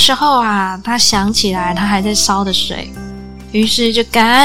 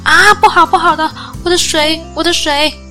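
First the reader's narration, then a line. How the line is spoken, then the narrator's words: Shouting in alarm. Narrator (Chinese): 他大喊道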